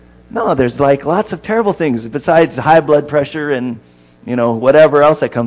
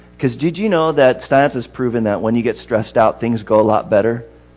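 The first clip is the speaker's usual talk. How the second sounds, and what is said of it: Sarcastic tone. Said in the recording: “I'm being sarcastic”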